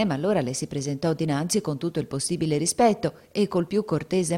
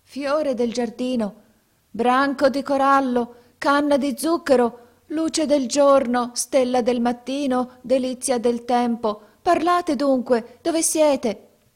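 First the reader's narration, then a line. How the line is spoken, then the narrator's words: Startling shout. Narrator (Italian): gridò con voce che fece trasalire Canem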